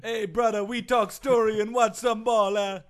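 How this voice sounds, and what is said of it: Stereotypical put-on island accent. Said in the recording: “That's a stereotypical Jamaican accent, first of all. ... That's how they speak pigeon over in Hawaii.”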